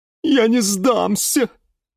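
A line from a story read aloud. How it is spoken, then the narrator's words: Sobbing. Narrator (Russian): всхлипывала Лиана Диана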